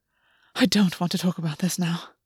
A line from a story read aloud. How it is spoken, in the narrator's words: August muttered